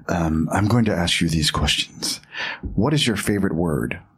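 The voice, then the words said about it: James Lipton impression. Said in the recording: “I will try and do a James Lipton voice”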